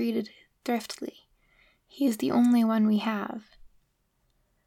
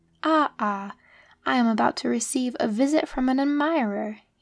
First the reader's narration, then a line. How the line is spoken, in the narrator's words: he exclaimed from afar